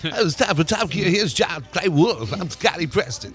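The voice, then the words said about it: 1950s radio voice like Christopher Walken. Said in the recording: “Got that pukey 50s. ... Sounds like Christopher Walken.”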